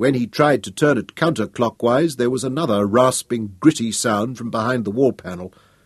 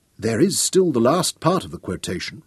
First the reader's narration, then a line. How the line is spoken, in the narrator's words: Royan whispered